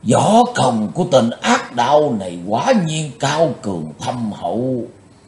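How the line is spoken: Involuntary exclamation. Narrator (Vietnamese): Tàng Môn Thần đã phải bật thốt lên

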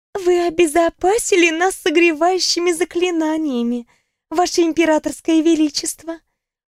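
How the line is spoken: Purring voice. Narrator (Russian): промурлыкала Ньяра Цикин

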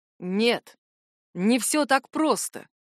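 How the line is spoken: Hateful, through gritted teeth. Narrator (Russian): процедил сквозь зубы Джар, с ненавистью

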